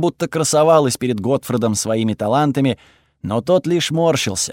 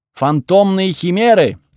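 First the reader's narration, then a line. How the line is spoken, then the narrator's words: Shouting out. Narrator (Russian): выкрикнула Тхаги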